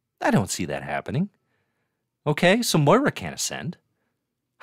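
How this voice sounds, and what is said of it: Usual voice. Nothing is said of it.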